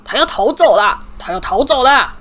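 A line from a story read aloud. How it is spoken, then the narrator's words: Yelling. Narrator (Chinese): 佩妮，威农一丈吼道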